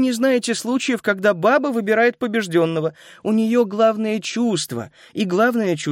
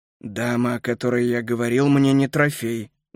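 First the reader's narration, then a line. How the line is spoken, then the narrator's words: Muffled hollow voice. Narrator (Russian): глухо проговорил Келлер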